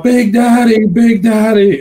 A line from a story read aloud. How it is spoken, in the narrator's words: someone's yelling out